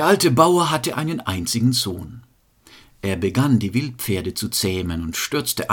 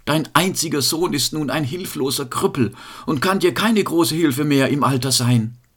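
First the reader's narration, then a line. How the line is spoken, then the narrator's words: Group lamenting. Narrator (German): jammerten sie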